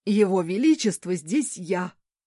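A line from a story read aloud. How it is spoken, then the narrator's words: Barked. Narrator (Russian): рявкнул Генрих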